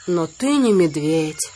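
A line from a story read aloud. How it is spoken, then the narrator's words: Sad reply. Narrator (Russian): грустно ответил Балу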